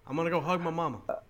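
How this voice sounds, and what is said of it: Johnny Bravo-style crooner voice. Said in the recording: “Why did he turn into Johnny Bravo? ... he turned into Elvis ... It is that voice.”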